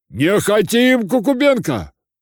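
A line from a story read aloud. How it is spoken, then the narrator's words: Shout. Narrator (Russian): кричала другая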